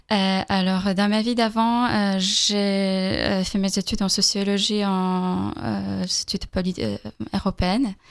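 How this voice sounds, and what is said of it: Slight Polish accent in French. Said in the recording (French): “J'ai un petit accent, je suis polonaise.”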